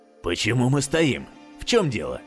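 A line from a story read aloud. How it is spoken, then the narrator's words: Surprised snort. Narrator (Russian): Удивленно хмыкнул Эдвин Лемар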